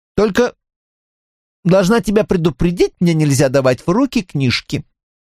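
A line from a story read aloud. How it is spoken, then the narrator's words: Imitating mother's voice. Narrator (Russian): продолжает маминым голосом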